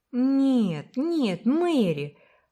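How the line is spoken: Soothing exclamation. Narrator (Russian): воскликнула Уна, пытаясь успокоить ее

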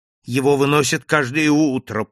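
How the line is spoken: Woman moaning. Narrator (Russian): простонала госпожа Монпарно

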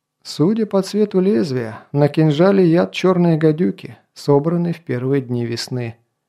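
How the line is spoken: Calm reply. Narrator (Russian): спокойно ответил Кай

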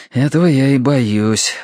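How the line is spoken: Sighing. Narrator (Russian): вздохнул Терренс

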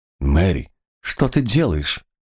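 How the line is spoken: Confused young man asking. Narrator (Russian): растерянно спросил юноша

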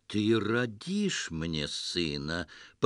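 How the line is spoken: Patronizing, smiling. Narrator (Russian): покровительственно улыбнулся повелитель Багдада

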